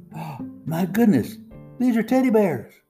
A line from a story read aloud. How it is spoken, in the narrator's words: exclaimed